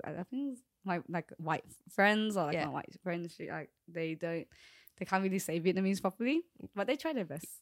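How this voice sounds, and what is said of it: Australian accent. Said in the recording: “the accent already just brings out a lot of me, or like being Australian ... they hear the accent”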